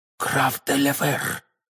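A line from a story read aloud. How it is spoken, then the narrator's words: Pale frightened whisper. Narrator (Russian): прошептала миледи бледнее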